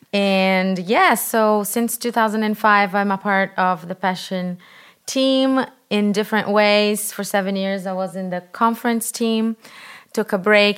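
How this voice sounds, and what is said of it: Brazilian accent. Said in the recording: “I am Brazilian, and I have an accent. ... You have the best accent ever.”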